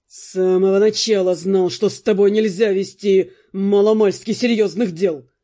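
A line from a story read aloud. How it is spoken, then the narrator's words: Angry, through gritted teeth. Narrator (Russian): зло процедил Джастин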